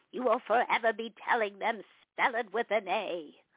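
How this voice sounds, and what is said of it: Katharine Hepburn impression. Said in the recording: “You do a great impression. ... the late, great Kathryn Hepburn”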